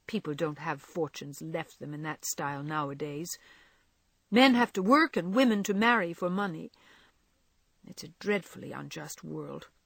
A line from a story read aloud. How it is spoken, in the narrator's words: said Meg bitterly